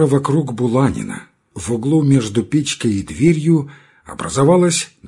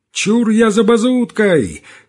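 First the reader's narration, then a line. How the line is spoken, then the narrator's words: Shout. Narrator (Russian): крикнул чей-то голос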